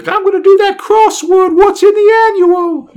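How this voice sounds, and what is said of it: Put-on British child's accent. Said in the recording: “The return of your amazing British accent. ... I'm going to do these little kid British accents”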